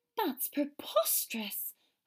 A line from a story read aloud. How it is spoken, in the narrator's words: Hermione exclaimed